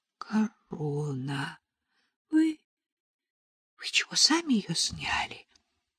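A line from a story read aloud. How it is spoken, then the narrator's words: Breathless exhale. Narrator (Russian): выдохнула Нелли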